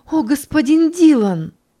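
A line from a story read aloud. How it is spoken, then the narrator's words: Joyful exclamation. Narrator (Russian): воскликнула радостно Ханни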